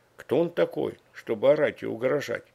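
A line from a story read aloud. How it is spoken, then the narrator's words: Quiet, puzzled. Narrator (Russian): Я тихонько высказал свое недоумение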